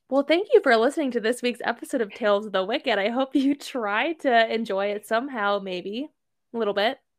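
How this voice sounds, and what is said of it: Polished podcast host voice. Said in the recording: “my podcast voice”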